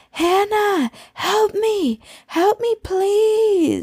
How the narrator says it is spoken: yell

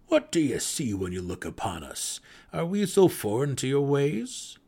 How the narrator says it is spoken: the deep gnome asked in his hearty, melodic voice

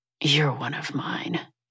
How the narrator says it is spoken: he growls

